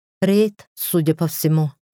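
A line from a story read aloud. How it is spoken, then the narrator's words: Plain. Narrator (Russian): ответила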